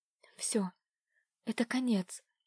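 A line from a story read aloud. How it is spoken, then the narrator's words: Whisper to herself, numb lips. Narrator (Russian): прошептала она сама себе мерзлыми, бескровными губами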